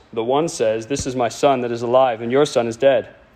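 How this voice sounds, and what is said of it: Put-on regal king voice. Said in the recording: “Do a king voice.”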